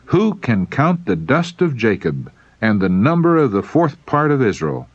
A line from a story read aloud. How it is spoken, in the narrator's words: he exclaimed